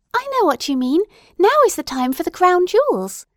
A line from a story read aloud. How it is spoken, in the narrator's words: cried Adelaide